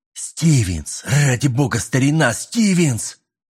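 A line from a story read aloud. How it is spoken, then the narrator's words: Loud whisper. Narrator (Russian): громким шепотом повторил капитан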